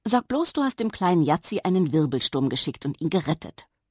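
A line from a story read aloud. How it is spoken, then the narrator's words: Plain. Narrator (German): fragte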